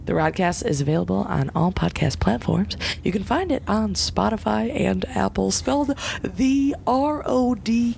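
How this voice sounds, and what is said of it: Deep raspy radio announcer voice. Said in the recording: “That was a pretty good fucking radio voice. ... That was very good. ... my raspy voice”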